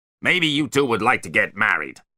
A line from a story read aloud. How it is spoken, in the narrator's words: he barked